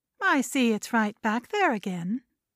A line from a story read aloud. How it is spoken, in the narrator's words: Sandra said calmly